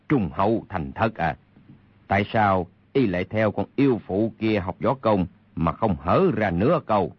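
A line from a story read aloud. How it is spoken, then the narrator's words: Cold sneering. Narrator (Vietnamese): Kha Trấn Ác cười nhạt nói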